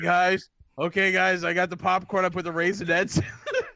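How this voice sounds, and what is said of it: Put-on Boston accent. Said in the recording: “He's like from Boston. What the hell was that accent?”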